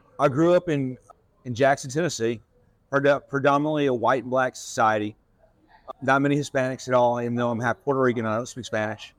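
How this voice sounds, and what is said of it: Tennessee Southern accent. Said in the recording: “your accent, obviously, you're from Tennessee”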